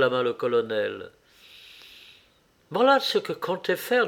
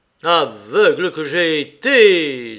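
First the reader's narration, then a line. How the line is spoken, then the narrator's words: Colonel exclaiming. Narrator (French): s'écria le colonel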